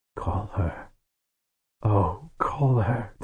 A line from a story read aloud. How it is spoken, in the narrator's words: Tehanu whispered